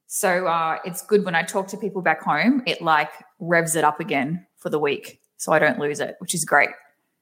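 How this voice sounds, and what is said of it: Thick Australian accent. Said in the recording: “my Aussie accent because I do have a very thick accent”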